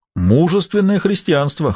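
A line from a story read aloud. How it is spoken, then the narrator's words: Short chuckle. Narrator (Russian): хохотнул Рене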